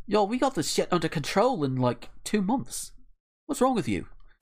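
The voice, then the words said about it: Shaky put-on Australian accent. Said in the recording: “I see she's from Australia via London then... I need to work on my Aussie accent again”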